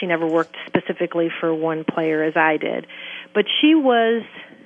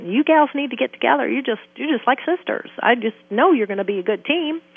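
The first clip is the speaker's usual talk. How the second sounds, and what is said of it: Heavy Southern accent. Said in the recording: “he had this heavy Southern accent”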